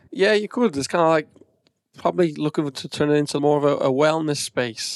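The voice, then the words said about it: Slight accent, not Irish-sounding. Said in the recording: “you obviously have a bit of an accent. So you don't sound like you're Irish.”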